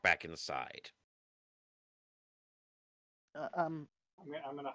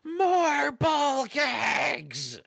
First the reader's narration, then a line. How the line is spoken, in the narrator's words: from the top, you hear Mistress Bitch yell